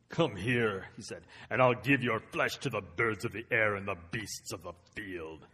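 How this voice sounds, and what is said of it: Deep menacing giant character voice. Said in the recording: “Let me do my Goliath voice. ... That's what Goliath sounded like if he spoke English.”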